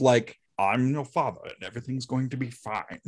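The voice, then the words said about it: Picard impression, calm and assertive. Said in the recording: “That's a really good impression.”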